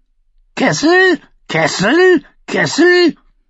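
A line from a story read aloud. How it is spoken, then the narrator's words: Frustrated croaking mutter. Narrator (German): als er weder Korn noch eine Antwort bekam, krächzte und murmelte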